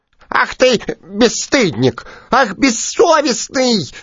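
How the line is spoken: Squeaky clamorous chorus. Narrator (Russian): запищали все комары разом и подняли ужасный гвалт

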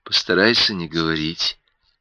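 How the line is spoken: Quiet. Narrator (Russian): сказала она негромко

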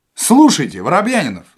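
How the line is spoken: Shouting. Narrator (Russian): закричал Остап

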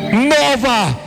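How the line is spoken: Shouting. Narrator (Russian): выкрикнул он

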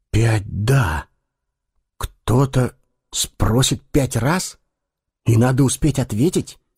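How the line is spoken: Repeated muttering from darkness. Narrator (Russian): в который раз пробормотал из темноты Эггерт

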